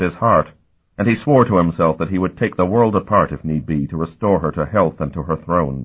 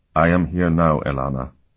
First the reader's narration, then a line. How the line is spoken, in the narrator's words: he murmured